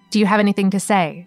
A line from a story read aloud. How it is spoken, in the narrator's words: an official asked